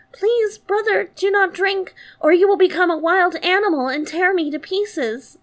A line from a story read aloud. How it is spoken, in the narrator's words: the little sister cried out